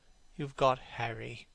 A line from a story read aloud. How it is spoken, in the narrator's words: said Hallward sadly